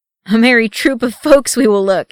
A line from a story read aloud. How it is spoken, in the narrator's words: he chuckled